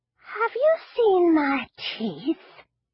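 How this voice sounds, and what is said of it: Spooky old woman's voice. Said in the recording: “a sudden spooky voice”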